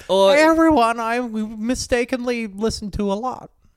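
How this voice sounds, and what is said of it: Imitates another person's voice. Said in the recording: “That's a good impression. That's amazing. ... I think that's pretty good.”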